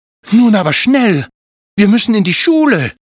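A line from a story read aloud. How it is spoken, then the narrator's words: Call. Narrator (German): rief Zilli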